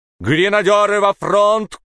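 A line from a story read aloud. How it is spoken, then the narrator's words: Captain's shout. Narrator (Russian): крикнул капитан Торнтон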